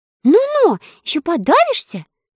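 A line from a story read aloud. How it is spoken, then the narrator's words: Sharp scolding shout. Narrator (Russian): прикрикнула Элли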